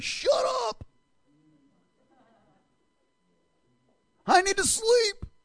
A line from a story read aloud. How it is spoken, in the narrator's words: They're probably screaming at them